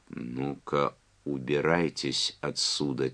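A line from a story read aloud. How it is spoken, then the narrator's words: Quiet. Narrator (Russian): тихо сказала Чарли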